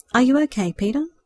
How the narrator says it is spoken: asked timidly

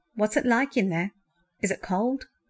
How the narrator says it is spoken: Andrew was shivering just a little, but he laughed

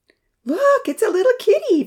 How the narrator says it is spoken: Vanitha cried out with delight

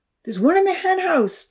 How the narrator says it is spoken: Charlie called out

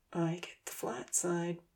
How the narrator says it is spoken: Ponsy whispered

